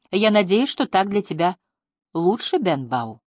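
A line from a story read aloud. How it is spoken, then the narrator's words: Plain. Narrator (Russian): сказала она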